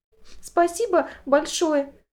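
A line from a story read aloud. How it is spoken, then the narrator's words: Sobbing. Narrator (Russian): всхлипнула София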